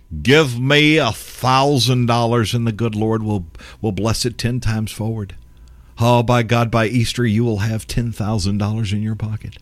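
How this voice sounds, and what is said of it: Lame impersonation of a prosperity preacher. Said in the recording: “I do that as a very lame impersonation of this”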